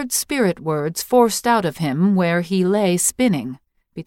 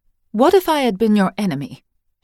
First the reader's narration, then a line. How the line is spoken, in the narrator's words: she asked